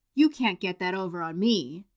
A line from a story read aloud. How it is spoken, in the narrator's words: Henwood spat